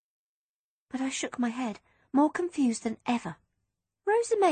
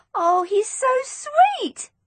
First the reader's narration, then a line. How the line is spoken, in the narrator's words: I cried